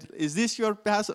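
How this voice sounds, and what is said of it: Poorly done Spanish accent. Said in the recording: “in a Spanish accent ... I really butchered that”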